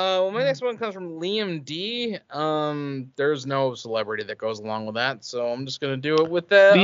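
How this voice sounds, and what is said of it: Usual voice. Nothing is said of it.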